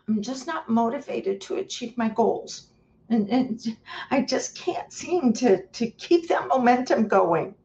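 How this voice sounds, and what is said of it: Whiny voice. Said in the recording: “I do it in a whiny voice”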